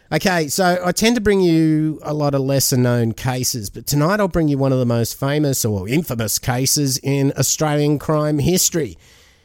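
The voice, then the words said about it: Sick, under-the-weather voice. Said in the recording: “sorry about my voice tonight. I've got the man flu a little bit”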